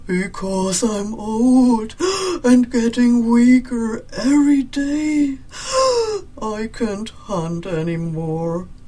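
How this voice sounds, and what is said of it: Breathless, gasping old dog voice. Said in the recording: “gasping for air like somebody who had run for miles and miles ... Why are you so out of breath?”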